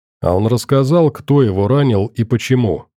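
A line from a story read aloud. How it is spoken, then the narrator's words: Plain. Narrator (Russian): спросил Саша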